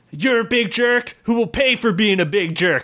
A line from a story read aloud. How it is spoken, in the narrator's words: shouted Cliff